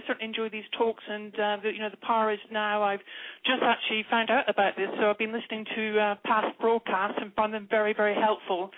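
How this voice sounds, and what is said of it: English accent. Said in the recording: “I really love her accent ... an English accent. Nobody ever distrusts a person who speaks from England.”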